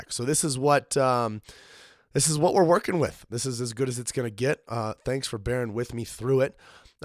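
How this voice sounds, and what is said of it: Rough, sick-sounding voice. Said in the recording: “my voice is absolute trash for this episode. I came down with a sickness last week ... I just haven't gotten my voice back”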